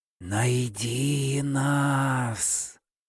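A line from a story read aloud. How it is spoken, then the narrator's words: Barely audible whisper. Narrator (Russian): Едва слышный шепот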